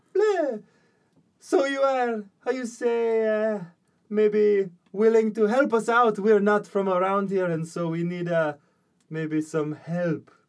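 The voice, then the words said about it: Put-on character voice for Marakdal. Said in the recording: “she goes, "Yes, bleh." And I need to do the voice. I need to do it to get into the voice.”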